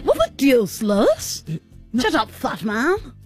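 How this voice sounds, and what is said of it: Cartoon character voice, fully committed. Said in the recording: “I can do the Stewie accent. ... you're very good at it. ... You definitely don't undercommit.”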